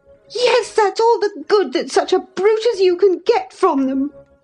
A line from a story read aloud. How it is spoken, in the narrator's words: cried Catherine, sucking her damaged lip